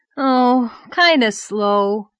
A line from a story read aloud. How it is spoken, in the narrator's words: said Davy with a sigh